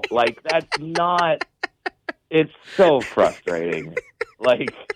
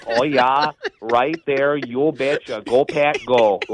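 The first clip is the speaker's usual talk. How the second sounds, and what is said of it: Put-on Wisconsin accent. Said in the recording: “Chinese with a Wisconsin accent ... not exactly the sexiest accent”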